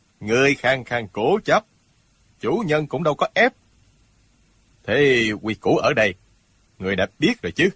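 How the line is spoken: Cold male voice. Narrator (Vietnamese): Giọng một hán tử lạnh lùng nói

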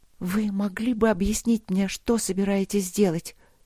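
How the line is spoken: Heavy and quiet. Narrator (Russian): тяжело и тихо сказала Алина

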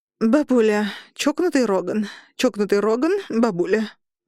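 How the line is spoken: Forced out. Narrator (Russian): выдавила я

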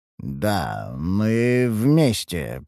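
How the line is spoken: Mumbled. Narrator (Russian): пробормотал я

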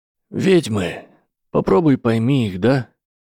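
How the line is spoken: Slightly hoarse voice. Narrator (Russian): Тана произнес лишь слегка хриплым голосом

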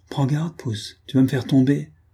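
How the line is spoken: Excited exclamation. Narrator (French): s'écria-t-elle, les yeux brillants

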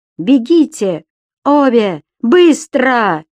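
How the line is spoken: Shouted. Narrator (Russian): Кричал Дэн

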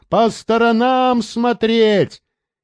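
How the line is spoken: Shouting to those behind. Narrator (Russian): Рейнольдс уже кричал тем сзади

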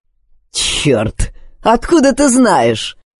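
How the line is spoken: Mocking male voice. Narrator (Russian): Насмешливо бросил мужчина

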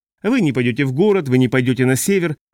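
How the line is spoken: Irritated remark. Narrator (Russian): раздраженно прокомментировал Джоргенсен

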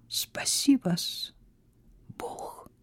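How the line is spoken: Whispered. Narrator (Russian): прошептала

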